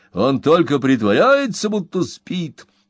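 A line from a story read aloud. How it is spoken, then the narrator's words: Furious shouting. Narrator (Russian): яростно кричал капитан Болдуик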